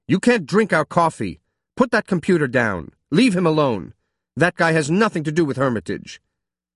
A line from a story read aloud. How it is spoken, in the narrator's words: Emma tried to take charge, shouting at the officers